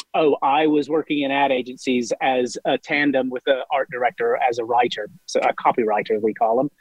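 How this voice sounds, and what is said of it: Tennessee accent mixed with London. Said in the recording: “my accent is from Memphis, Tennessee, but it's been channeled through 23 years of West London. ... that didn't sound like a Tennessee London twang. ... the most unique accent”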